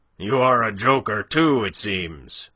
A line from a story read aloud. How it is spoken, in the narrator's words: roared the other